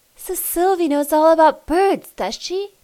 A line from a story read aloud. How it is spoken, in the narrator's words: exclaimed